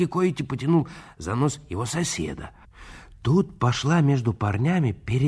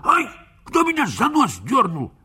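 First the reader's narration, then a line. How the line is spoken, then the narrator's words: Wailing yell. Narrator (Russian): Тот завопил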